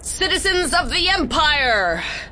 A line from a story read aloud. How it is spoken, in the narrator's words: She yelled